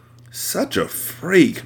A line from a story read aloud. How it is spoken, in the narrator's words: Michaela muttered